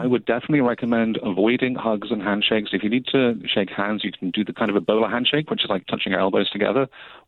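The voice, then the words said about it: British accent. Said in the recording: “as you can tell from my accent, I'm British”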